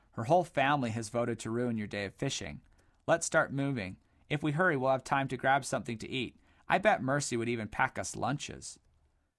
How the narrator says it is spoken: chuckled Boot

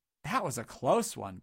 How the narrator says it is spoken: gasped Dodd breathlessly

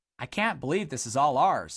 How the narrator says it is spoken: exclaimed Boot

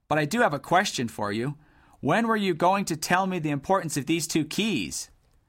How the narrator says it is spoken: Dilly let out a garbled chuckle

